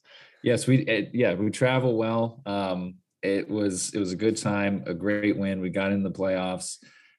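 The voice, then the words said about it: Hoarse, strained lost voice. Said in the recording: “I lost my voice... I screamed so much... I have tried to rest my voice”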